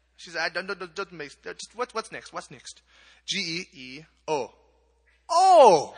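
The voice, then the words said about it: Imitates a Kenyan woman's accent. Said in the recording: “Here, I'll do the accent. You can tell me how I do.”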